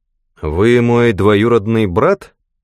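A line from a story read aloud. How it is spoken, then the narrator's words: Icy, unfriendly tone. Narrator (Russian): сказал Гилберт ледяным тоном, со слабой и далеко недоброжелательной улыбкой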